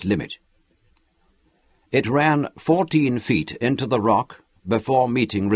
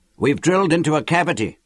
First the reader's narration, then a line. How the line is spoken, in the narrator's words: shouted